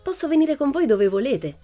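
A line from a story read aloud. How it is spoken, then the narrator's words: Plain. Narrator (Italian): rispose Pippi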